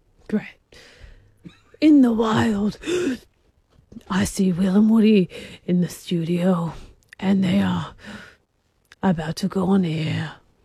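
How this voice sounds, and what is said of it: Breathy David Attenborough impression. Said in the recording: “your best David Attenborough impersonation ... What's with the breathing? ... Quite breathy.”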